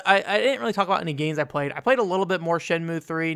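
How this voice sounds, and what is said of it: Slightly sick-sounding voice. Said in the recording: “If you can't tell by my voice, I'm a little sick right now. Not a ton, but a little bit.”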